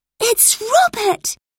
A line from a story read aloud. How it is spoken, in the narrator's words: Lucy exclaimed